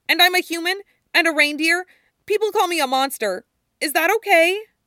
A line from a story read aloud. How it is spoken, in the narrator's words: Chopper blurted